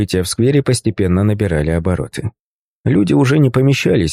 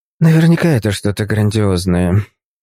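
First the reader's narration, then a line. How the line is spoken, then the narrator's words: Grumbling. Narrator (Russian): проворчала Кэти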